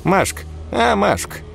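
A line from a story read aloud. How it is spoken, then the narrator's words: Creaky voice. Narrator (Russian): проскрипела она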